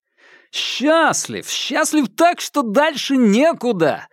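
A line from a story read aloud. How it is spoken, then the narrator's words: Exclamation. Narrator (Russian): воскликнул Хуан Цзинфэн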